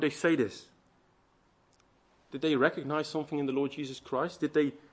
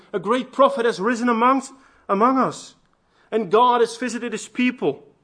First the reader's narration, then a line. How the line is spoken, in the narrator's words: talked among themselves and some were shouting